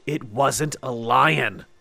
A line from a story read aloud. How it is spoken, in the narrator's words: he said through gritted teeth